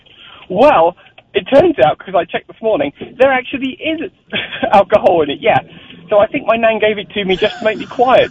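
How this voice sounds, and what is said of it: British accent. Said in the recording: “as you can tell by your accent ... you're from the UK”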